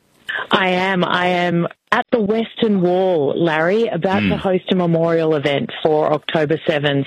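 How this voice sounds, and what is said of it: Distinctive Australian accent. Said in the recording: “I can't quite pick up the accent. Are you from New Jersey? Because it's very distinctive. ... Australia is the New Jersey of the Southern Hemisphere.”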